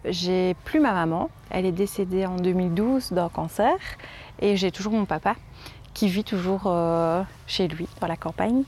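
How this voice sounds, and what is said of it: Belgian French accent from Liège. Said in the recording (French): “Je viens de Belgique, de Liège, on l'entend à mon accent.”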